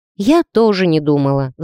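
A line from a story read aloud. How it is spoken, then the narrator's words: Sighing. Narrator (Russian): вздохнула я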